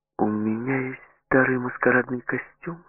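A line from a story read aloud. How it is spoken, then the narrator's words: Plain. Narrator (Russian): сказала Флер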